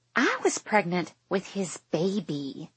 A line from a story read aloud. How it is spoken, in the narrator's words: she hisses, thankfully low enough that the people eating farther away can't hear